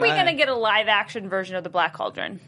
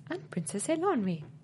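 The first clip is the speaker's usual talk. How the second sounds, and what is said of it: Impression of Princess Eilonwy. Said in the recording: “Great impression.”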